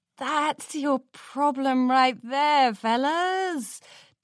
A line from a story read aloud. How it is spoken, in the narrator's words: Daring chuckled